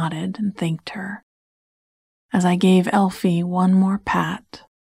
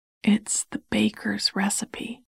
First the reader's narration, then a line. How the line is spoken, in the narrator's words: she whispered